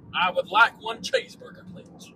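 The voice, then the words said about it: Put-on American accent. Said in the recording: “I gotta speak with my American accent.”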